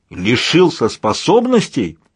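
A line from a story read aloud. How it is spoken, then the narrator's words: Barked. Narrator (Russian): рявкнул Каос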